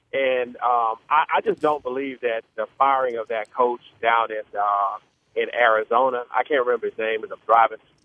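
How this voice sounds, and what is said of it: African-American Houston accent. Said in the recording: “I don't know if you can tell by my accent, but I'm an African-American gentleman. Grew up in Houston all my life.”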